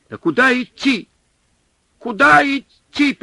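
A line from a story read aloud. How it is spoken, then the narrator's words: Yelling over howling wind. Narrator (Russian): перекрывая вой ветра, заорал снабженец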